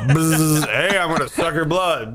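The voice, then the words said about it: Casual buzzy mosquito voice. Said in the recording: “Your impression of a mosquito ... It's just like an English American accent that has buzzes spliced into it ... very, very chill, very casual”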